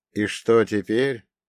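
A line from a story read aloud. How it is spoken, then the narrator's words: Muttering. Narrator (Russian): пробормотала я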